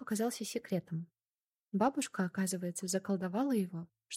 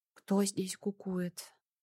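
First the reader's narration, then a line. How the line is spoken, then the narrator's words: Sleepy voice. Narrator (Russian): сонным голосом спросил он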